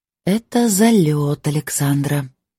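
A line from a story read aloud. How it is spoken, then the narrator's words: Quiet weary voice. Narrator (Russian): тихо сказала я вслух, бессильно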